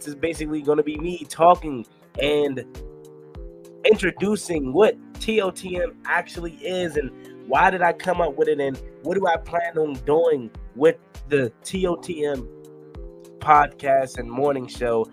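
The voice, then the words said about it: Sick-sounding voice with a cold. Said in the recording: “As you can hear in my voice, I'm still recovering from a cold”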